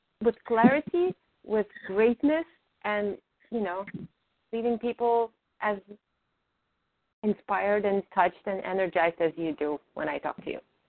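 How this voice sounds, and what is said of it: Slight foreign accent in English. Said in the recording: “She has a bit of an accent. ... I understand that you have an accent.”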